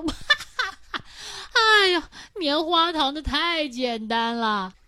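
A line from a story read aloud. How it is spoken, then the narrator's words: Bursting into laughter. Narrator (Chinese): 狮子一听就大笑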